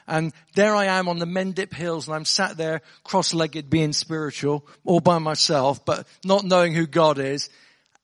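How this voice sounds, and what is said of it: Somerset English accent. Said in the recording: “I'm from Somerset, if you're wondering where the accent's from.”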